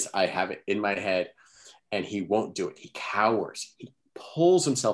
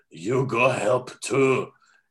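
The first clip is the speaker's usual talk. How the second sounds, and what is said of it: Imitates a film character's voice. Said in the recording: “in this voice ... He says just like that ... It was just an impersonation.”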